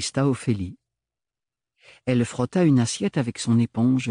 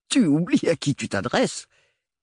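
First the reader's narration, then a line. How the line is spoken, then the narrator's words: Great-uncle sneering. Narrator (French): ricana le grand-oncle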